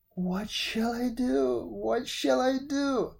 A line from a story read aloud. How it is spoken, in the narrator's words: he sobbed